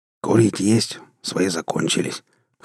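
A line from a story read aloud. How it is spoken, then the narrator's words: Hoarse question. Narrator (Russian): хрипло спросил одноглазый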